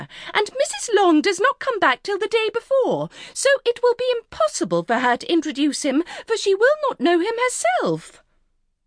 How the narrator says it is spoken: cried her mother

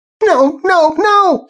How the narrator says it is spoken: was screaming

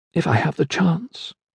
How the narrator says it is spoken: muttered quietly

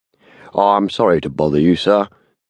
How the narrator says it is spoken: rumbled the constable

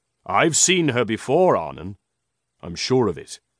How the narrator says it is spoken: said Lucio

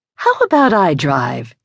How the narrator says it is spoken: She said sweetly

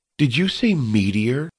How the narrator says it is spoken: King Tolobi laughed nervously

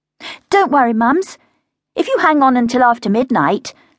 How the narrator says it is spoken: said as cheerfully as she could

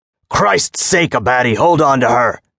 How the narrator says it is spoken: Jim snapped

